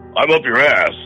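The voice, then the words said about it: Imitates another person's voice. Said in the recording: “I don't do a very good Zindu impression. ... It sounded more like Macho Man Randy Savage.”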